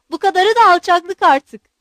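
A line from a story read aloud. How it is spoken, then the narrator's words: Shouted. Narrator (Turkish): diye bağırdı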